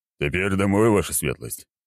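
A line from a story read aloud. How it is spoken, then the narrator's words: Cheerful question. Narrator (Russian): весело спросил Аршавин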